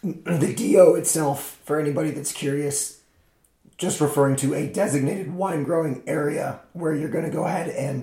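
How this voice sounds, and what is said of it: Strained, deteriorating voice. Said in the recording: “my voice is getting worse... God, I sound terrible.”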